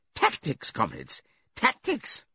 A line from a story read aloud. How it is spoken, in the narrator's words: with a merry laugh